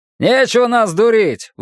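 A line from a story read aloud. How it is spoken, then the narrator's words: Shouted out. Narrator (Russian): выкрикнул один из них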